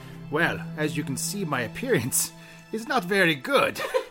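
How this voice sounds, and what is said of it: Put-on Italian accent, inconsistent. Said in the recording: “That's an Italian accent, isn't it? ... You're all over the place, but it's good. It's entertaining, actually. ... I have a fluid accent. ... It's all right. It's good. Solid.”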